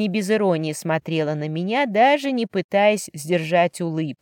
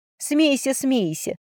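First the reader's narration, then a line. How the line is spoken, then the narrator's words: Laughing reply. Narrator (Russian): засмеялась я в ответ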